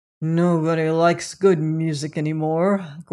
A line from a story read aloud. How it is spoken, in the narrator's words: growled the critic